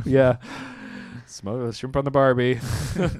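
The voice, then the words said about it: Put-on accent. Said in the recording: “That's a lovely accent.”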